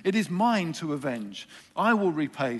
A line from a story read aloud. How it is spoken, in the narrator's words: says the Lord